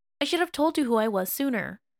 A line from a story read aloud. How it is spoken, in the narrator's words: Wei Wuxian blurted